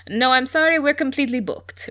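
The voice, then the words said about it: Not very good French accent. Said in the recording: “Michelle is French, in case that's not clear from my not very good French accent”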